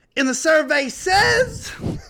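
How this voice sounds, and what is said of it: Steve Harvey impression. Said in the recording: “my Steve Harvey impression.”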